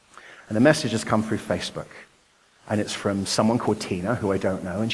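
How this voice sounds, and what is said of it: English accent. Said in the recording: “So I was born in Nottingham, England. You may have noticed I have a different accent.”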